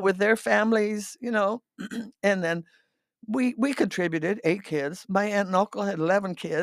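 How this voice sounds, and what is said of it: Hoarse voice. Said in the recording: “I'm getting hoarse already.”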